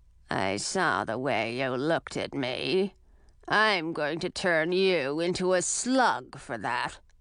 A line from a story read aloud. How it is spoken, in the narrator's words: In a rough and gravelly voice, she … said